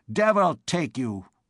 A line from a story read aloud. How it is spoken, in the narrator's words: growled Master Andre Mounier